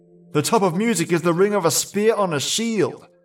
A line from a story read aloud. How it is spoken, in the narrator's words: cried the stout lad